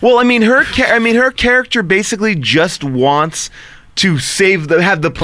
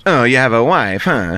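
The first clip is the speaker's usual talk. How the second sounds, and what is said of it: Imitates a villain character's voice. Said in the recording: “great Poison Ivy impression ... That was a pretty good one.”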